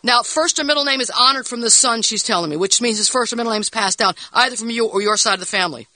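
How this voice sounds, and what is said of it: Speaking very fast. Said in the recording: “You're talking too fast.”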